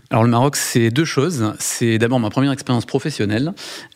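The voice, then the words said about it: Regional French accent from Rodez. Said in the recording (French): “Vous étiez à Rodez, d'où euh, le teint allait et puis également un bel accent.”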